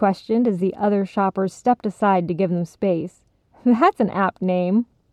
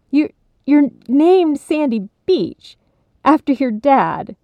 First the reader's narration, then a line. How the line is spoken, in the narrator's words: Bibi spluttered